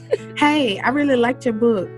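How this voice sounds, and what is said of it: Put-on voice of a white neighbor. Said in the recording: “will play the random white neighbor ... I'm gonna try this voice.”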